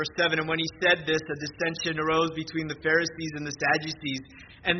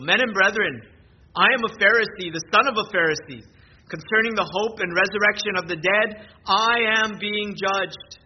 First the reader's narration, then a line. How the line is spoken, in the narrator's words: he cried out in the council